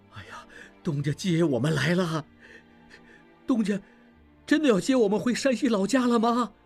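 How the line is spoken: Crowd crying out, mixed emotions. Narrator (Chinese): 乔家各号的掌柜和伙计……一时间都在叫喊着同样的话，悲喜交加

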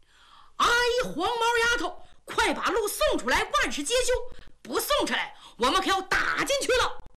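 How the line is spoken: Loud straining shout. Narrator (Chinese): 扯着嗓子冲着里边喊

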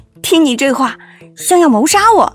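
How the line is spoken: Smiling. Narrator (Chinese): 麦青青莞尔一笑

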